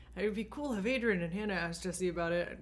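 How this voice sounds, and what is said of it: Imitates another person's voice. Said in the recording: “This is my Nate impression. ... It's really good.”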